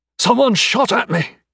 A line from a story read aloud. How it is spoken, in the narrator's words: he exclaimed